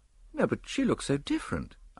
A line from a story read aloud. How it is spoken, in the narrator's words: I replied rather feebly